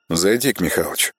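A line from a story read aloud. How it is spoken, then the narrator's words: Tossed out quietly. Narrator (Russian): негромко бросил он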